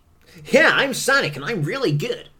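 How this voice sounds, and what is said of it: Impression of Sonic's cartoon voice. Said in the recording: “I hate how accurate that impression is”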